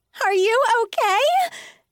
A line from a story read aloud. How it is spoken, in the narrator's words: Emma cried